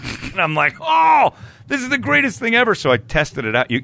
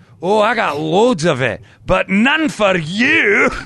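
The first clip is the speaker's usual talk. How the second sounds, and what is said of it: Put-on Scottish accent. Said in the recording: “my Scottish friend ... It only works in the accent.”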